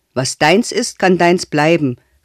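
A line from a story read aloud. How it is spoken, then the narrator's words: Calling after someone. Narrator (German): rief er der Alten nach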